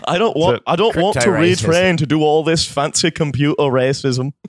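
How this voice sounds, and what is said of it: Unclear, poorly done put-on accent. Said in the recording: “I don't know what that accent is. ... I'm bad at accents.”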